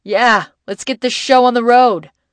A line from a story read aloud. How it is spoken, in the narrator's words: Ben yell